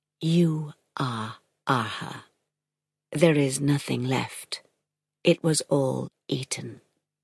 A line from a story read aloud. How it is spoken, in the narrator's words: Rather, she confirmed, almost whispering